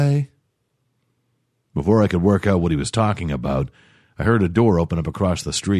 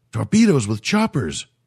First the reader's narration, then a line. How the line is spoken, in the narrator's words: cried the alien